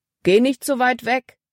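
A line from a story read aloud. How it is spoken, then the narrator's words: Calling out. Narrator (German): rief Paul ihr zu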